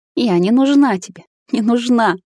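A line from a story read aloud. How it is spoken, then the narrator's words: Sobbing woman. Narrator (Russian): всхлипывает подруга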